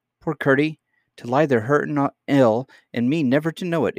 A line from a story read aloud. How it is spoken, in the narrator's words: exclaimed